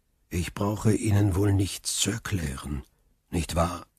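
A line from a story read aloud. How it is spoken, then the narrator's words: Calm. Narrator (German): sagte Faria ruhig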